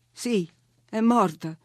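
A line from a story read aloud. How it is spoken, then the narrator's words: Holding back sobs. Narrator (Italian): risposi, tenendo a freno i singhiozzi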